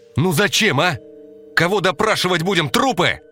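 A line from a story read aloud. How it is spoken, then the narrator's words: Shout. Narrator (Russian): Костя крикнул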